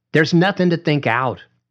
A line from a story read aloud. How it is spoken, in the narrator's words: Rita McAfee said sharply, like she was talking to a daydreaming child